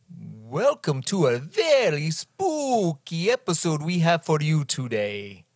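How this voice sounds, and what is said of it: Ridiculous put-on spooky accent. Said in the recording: “is that accent? ... Does it scare you? ... It makes me think that you sound so ridiculous.”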